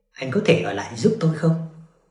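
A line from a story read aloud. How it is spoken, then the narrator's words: Soft pleading. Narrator (Vietnamese): cô với ánh mắt nài nỉ, khẽ nói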